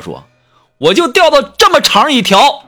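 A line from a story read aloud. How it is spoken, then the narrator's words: Sudden roar. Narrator (Chinese): 他突然对我吼道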